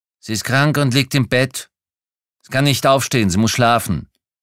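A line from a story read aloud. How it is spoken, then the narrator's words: Quick, cold. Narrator (German): kam es schnell und kalt aus der Ecke des Bruders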